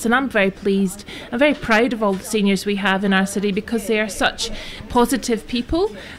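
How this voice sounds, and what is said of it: Speaks with a noticeable accent. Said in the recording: “love the accent”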